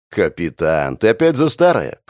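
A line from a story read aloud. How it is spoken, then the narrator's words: Snorting. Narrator (Russian): хмыкнул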